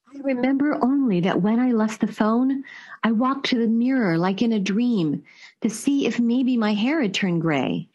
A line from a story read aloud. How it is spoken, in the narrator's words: said later